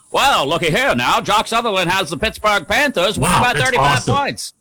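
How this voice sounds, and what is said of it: Old-timey radio announcer voice. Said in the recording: “Old timey radio voice.”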